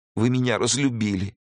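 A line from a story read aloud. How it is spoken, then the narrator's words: Sobbing. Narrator (Russian): всхлипнула она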